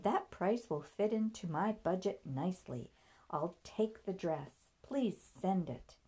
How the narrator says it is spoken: Laughing said

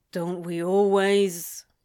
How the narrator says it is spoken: He grumbled back

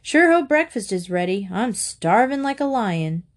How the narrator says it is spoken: Harbin called out

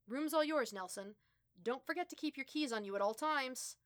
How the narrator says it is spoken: the RA barked over his shoulder

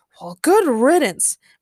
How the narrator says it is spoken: muttered Patrick

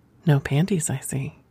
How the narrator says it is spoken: whispered

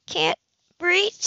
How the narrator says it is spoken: she gasped

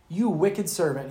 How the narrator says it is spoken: said

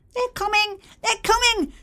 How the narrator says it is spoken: squeaked Bernardo

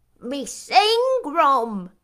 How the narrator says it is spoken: exclaimed Mrs

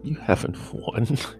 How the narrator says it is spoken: Ghislaine laughed haughtily

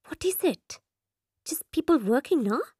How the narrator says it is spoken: She whispers in sister's ear

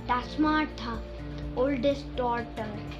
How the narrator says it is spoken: the giant whispered to Scrooge

